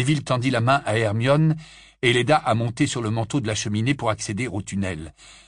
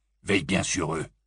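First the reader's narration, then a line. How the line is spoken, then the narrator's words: Gruff voice. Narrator (French): lança Abelfort d'une voix bourrue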